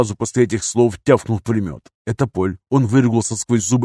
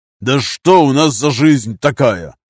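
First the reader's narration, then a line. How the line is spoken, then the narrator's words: Barked. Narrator (Russian): рявкнул Нардин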